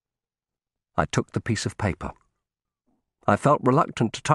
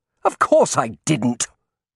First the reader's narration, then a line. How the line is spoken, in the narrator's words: Benson snapped